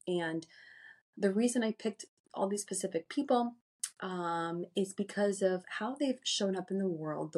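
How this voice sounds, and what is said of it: Raspy, hoarse voice. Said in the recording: “if you can hear the raspiness in my voice like I do, that is not my usual voice ... a respiratory infection ... this raspiness is going to go away”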